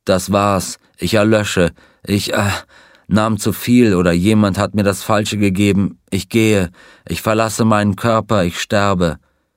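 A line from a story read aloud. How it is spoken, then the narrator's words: Groaning. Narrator (German): Er stöhnte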